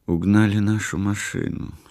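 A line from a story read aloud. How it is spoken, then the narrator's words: Quiet. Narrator (Russian): сказала она тихо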